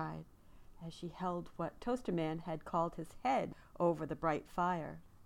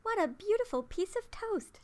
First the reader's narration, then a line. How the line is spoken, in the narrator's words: she cried